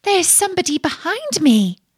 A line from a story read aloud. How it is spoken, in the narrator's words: cried the princess